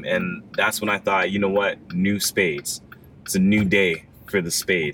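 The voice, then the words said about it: Very deep radio announcer voice. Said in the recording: “you have like a really deep radio announcer voice”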